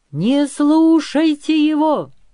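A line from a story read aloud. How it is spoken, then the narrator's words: Shouting. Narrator (Russian): закричал Кирчом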